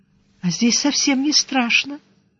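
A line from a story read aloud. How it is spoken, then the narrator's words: Quiet, subdued speech. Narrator (Russian): Притихшая, тихонько сказала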